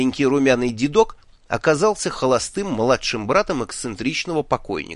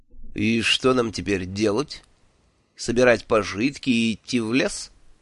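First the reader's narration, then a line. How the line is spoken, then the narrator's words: Gloomy villain's question. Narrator (Russian): мрачно спросил злодей Маркулу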